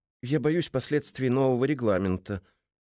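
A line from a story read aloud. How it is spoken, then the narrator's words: Timid. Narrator (Russian): робко проронил цензор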